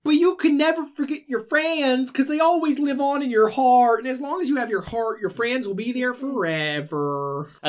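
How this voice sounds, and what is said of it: Goofy cartoon voice, Southern accent. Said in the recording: “That's a good Goofy. ... he just did an offensive Southern accent.”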